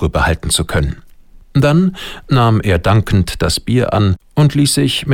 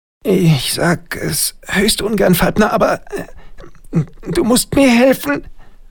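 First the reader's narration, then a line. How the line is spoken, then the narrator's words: Groaning from the weeds. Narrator (German): stöhnte Schwabs Stimme aus dem halbhohen Unkrautbewuchs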